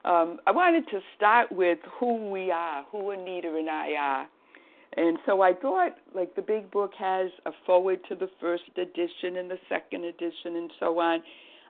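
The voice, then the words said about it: Boston accent. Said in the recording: “they enjoy my accent when I say from the Boston area”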